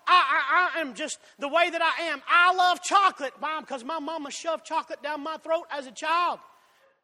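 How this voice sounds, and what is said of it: Southern drawl. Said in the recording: “I have a southern drawl... But I have a southern drawl.”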